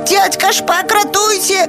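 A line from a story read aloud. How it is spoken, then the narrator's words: Birds crying for help. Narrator (Belarusian): закрычалі ластавачкі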